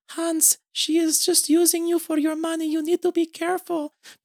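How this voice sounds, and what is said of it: Imitates a character's accent. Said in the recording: “I'm going to do her accent. I have to.”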